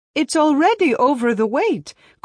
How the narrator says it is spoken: cried Bessie

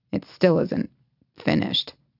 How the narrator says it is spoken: he mutters

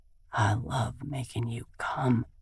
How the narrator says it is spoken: he mumbles

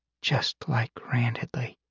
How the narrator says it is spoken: Lyra whispered

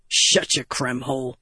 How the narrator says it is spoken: Gaz grumbled

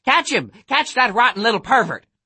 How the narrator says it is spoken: she hadn't started shrieking

